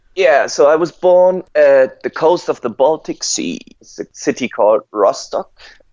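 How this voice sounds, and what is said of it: German accent. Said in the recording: “I am from Germany, as you can hear on my accent, I guess.”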